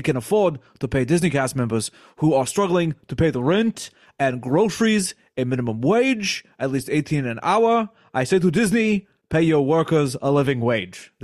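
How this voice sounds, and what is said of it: Bernie Sanders impression. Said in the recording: “He was fully committed to that impression ... I'm always committed to my impressions ... They're really good ... Bernie thinks Chapek sucks”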